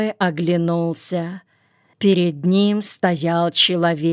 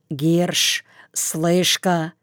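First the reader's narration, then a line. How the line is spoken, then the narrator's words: Hoarse voice. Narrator (Russian): чей-то сиплый голос сказал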